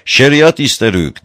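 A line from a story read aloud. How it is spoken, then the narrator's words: Chanted shouting. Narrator (Turkish): diye makamla bağırarak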